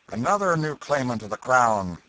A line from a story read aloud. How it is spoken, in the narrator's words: cried the officer